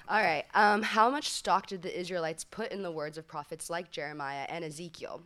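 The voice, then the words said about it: Sick-sounding voice. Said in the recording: “forgive my voice. I'm sick.”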